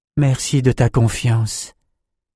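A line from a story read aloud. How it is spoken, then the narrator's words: Sad murmur. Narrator (French): murmura Nietzsche avec un triste sourire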